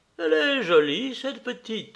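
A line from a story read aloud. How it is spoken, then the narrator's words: Casual, offhand tone. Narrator (French): dit-elle d'un ton dégagé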